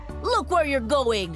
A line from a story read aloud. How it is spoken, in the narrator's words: the driver shouted at me